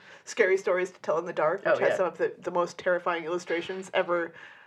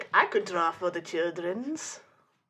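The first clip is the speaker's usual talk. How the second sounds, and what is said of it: Put-on unidentifiable accent. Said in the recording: “I don't know what that accent is, but he's got it”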